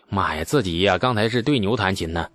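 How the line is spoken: Sighing. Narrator (Chinese): 李素叹气

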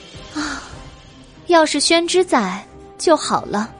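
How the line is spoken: Sighing. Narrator (Chinese): 白姬叹了一口气

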